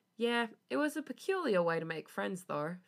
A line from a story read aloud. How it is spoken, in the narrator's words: Felix laughed